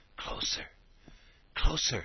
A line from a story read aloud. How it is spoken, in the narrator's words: she whispered